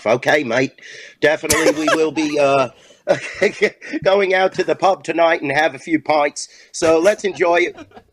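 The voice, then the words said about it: Put-on British accent. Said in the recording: “You have the most New York voice of all time. Let me hear you try a British accent ... That was tremendous.”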